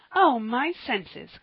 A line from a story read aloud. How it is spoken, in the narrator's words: cried Polly with a little laugh